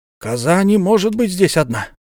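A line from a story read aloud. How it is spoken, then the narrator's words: Exclamation. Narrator (Russian): воскликнул Гектор Сервадак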